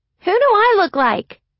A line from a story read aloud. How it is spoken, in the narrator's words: Marin had piped up